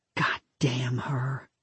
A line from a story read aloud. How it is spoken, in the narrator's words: Lisa whispered